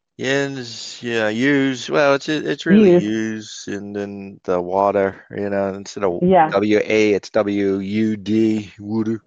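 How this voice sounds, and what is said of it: Philadelphia Pennsylvania accent. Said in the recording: “So you have the Pennsylvania accent. ... I got the good Philly accent here.”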